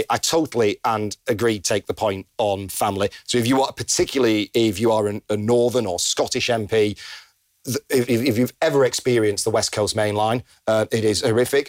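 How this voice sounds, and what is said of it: Northern English accent. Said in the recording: “as you can probably gather from my accent, I'm probably the one in closest proximity to Greater Manchester”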